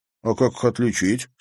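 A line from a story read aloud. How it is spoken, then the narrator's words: Plain question. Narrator (Russian): спросил Зверев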